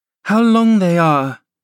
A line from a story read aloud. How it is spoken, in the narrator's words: she exclaimed